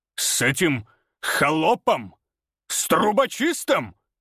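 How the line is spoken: Roaring. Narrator (Russian): взревел он

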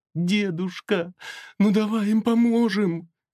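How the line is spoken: Pleading young woman. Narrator (Russian): взмолилась девушка

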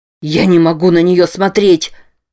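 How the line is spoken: Shouting. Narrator (Russian): кричал

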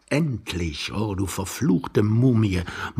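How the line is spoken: Young man muttering. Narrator (German): murmelte der junge Mann unterm Bett

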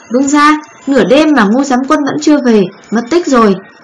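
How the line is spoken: Loud report. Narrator (Vietnamese): một binh lính lớn tiếng bẩm báo

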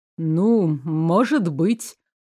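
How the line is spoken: Evasive mumble. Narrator (Russian): уклончиво пробормотал Рауль

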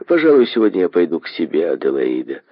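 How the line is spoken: Ordinary everyday tone. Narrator (Russian): тем же обыденным тоном, каким он говорит

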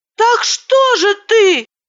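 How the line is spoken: Shouting. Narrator (Russian): закричала

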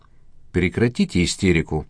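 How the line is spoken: Calm remark. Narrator (Russian): спокойно заметил Виктор Антонов

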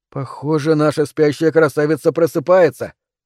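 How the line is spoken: Amused snort. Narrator (Russian): хмыкнул Тони

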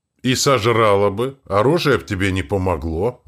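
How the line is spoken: Plain. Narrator (Russian): ответил Блот

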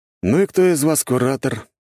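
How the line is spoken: Lazy question. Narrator (Russian): лениво уточнил я

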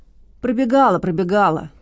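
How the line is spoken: Sly boy through teeth. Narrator (Russian): процедил хитрый мальчишка

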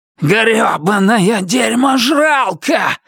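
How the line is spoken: Yelling. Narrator (Russian): заорал Туз

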